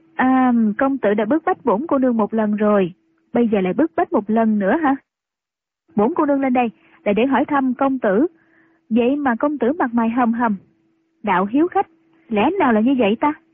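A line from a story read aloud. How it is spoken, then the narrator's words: Smiling. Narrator (Vietnamese): Triệu Mẫn mỉm cười nói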